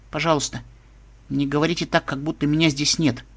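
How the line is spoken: Quiet. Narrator (Russian): тихо сказала Лира

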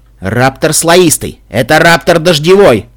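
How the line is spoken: Barked shout. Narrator (Russian): рявкнул командир

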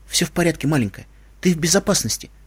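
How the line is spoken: Said while hurrying. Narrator (Russian): сказал, торопливо шагая

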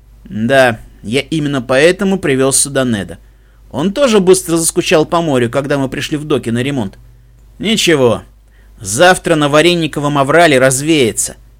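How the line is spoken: Deep bass chuckle. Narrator (Russian): Басовито хохотнул Дженкерс

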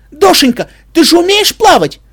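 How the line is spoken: Anxious shouting. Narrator (Russian): встревоженно кричал Шепель

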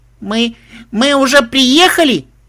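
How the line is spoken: Small child shouting. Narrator (Russian): прокричала малышка

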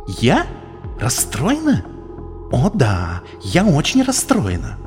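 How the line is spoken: Hissed. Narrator (Russian): зашипела Твайлайт

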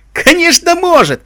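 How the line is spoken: Indignant reply. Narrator (Russian): возмущенно откликнулся один из техников

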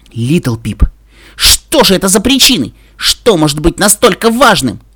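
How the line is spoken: Shouting. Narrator (Russian): Я кричала на дракона

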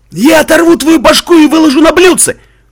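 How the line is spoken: Woman raider shouting. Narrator (Russian): прокричала рейдерша

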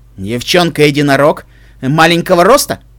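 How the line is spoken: Sharp question. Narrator (Russian): резко спросил Дедайс

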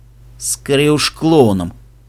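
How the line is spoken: Sighing grumble. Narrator (Russian): проворчал Себастьян со вздохом

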